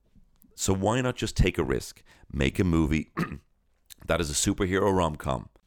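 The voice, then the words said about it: Hoarse voice. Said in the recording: “you can hear my voice now. I'm actually going hoarse now.”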